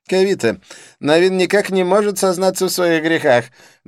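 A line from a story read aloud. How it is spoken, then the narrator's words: Loud complaint. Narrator (Russian): громко посетовал Дидье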